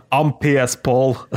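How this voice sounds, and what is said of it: Bad put-on Scottish accent. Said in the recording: “in a Scottish accent ... No, that was terrible, man.”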